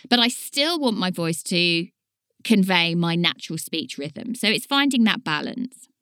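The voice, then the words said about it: English regional accent, dropped consonants. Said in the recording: “My accent is very much a Leighton Buzzard accent, and we are known for dropping our T's and our D's. We're a little bit lazy and a little bit sloppy.”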